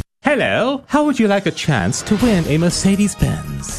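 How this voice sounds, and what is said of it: Put-on posh accent. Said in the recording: “What's up with the accent? ... Just putting on a posh accent”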